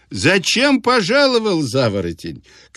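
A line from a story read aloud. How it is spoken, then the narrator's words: Shouting through laughter. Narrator (Russian): кричал он сквозь смех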